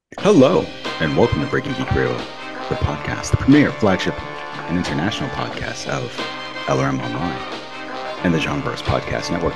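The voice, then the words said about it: Smooth public-radio host voice. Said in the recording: “I like your NPR voice. ... Were you practicing that? ... This is Terry Gross.”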